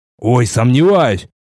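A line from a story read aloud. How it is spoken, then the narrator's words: Scoffing. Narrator (Russian): хмыкнул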